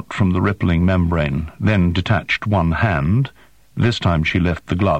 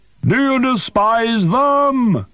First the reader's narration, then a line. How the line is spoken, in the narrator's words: Zilla yelled